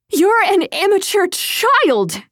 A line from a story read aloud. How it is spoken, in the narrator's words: she shouted